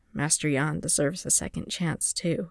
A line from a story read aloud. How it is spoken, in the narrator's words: he said quietly